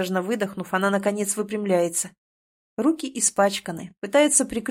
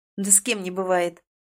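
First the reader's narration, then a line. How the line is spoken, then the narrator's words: Irritated retort. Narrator (Russian): Раздраженно отбиваюсь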